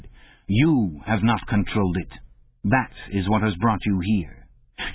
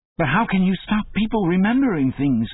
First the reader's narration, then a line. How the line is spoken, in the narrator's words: cried Winston